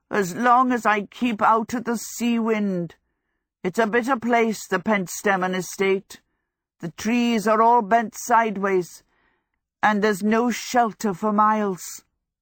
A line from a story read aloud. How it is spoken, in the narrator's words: croaked